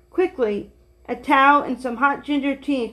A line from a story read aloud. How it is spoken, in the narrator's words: cried the old lady